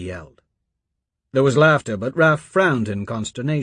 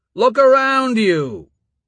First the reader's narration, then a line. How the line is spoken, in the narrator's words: roared